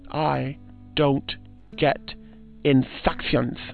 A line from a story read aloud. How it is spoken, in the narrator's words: the Count said, very slowly